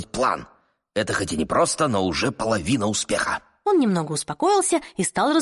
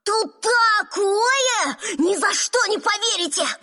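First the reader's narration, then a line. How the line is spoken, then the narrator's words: Shouting. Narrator (Russian): Медов закричал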